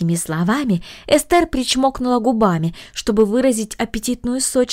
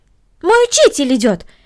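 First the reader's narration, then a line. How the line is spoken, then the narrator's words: Exclaimed. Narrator (Russian): воскликнула Корнели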